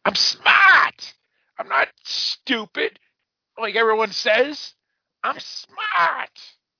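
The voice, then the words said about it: Imitates another person's voice. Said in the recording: “my John Cazale as Fredo ... my Godfather impression”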